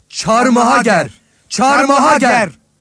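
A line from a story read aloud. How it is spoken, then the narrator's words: Crowd shouting. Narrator (Turkish): diye bağırdılar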